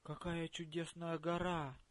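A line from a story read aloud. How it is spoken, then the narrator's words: Exclaimed. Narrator (Russian): воскликнула Нель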